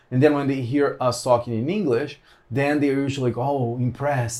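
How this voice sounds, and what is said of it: Brazilian accent in English. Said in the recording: “I have a very specific accent. ... my "and" is a very, very Brazilian specific way of saying "and."”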